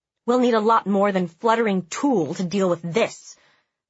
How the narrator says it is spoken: my mom grumbled

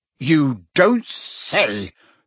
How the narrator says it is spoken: said the Prime Minister furiously

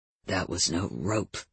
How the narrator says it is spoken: he growled

